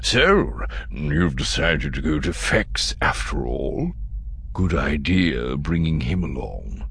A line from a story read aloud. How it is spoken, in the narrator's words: He lowered his voice and said to his daughter